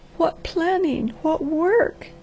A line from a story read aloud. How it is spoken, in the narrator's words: she sobbed